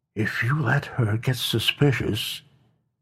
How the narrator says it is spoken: whispered words directly in his ear

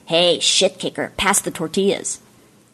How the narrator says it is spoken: her brother, Hillary, sneered and said

